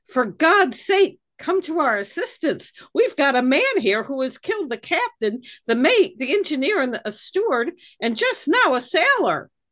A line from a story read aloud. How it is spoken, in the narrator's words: Someone from the disabled ship supposedly called out